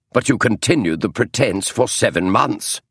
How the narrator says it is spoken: snapped Holmes

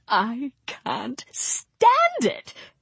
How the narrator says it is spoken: he squeaked, almost voiceless

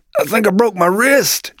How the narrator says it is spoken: Joseph hollered

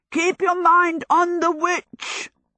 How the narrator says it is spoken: the horse beside Sophie yelled

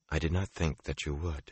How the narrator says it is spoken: she said coolly

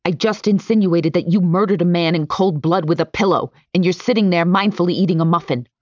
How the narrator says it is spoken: she barks

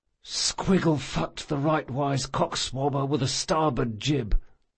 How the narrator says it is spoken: he whispered to himself

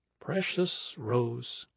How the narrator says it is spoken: he said, in a soft, even voice, an American voice that had nevertheless a kind of crisp enunciation to it

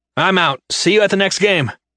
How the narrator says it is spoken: shouted over my shoulder

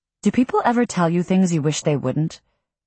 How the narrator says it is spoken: I blurt out

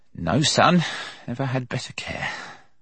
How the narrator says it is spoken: Hawkins said rather huskily

